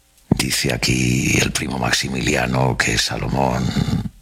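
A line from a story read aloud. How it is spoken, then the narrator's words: Murmur. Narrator (Spanish): Don Juan III murmuró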